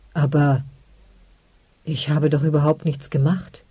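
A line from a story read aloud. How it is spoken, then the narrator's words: Muttering. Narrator (German): murmelte er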